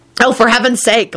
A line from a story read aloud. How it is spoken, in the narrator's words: thought crossly